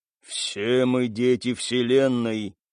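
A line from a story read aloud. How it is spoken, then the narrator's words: Thin man's drawl. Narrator (Russian): протянул худощавый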